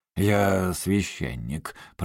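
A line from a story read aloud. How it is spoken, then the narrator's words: Grumbled. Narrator (Russian): проворчал отец Консет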